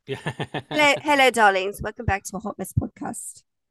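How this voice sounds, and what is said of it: Put-on British accent. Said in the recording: “I'm British. It's why I do the accent really well ... I'm waiting for the accent ... The British edition.”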